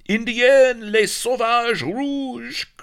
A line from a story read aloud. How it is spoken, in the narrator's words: cried the startled pirates